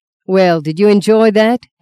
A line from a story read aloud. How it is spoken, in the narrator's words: asked Luke